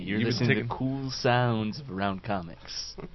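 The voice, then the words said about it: Smooth FM radio DJ voice. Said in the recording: “This is my new FM radio voice.”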